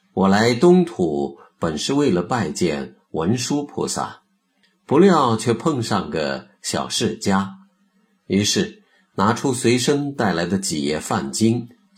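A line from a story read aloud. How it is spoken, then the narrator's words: Sincere admiring praise. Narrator (Chinese): 那范僧由衷的赞叹道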